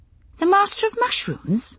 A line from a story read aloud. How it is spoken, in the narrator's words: I blurted